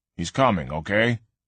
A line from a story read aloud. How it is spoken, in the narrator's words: her father said firmly